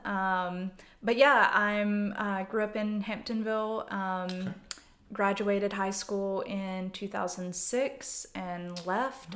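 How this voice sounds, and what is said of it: Strong Southern US accent. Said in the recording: “I am from Yadkin County, so like 30 minutes outside of Winston. That's where the accent comes from. It has come back with a vengeance now that I've moved back to the South.”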